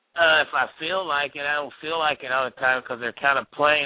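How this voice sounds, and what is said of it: Southern US accent. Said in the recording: “He's got an awesome accent... He's in South Carolina right now... That explains the accent.”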